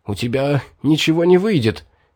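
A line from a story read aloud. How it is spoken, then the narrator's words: Hoarse voice. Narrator (Russian): охрипшим голосом сказал я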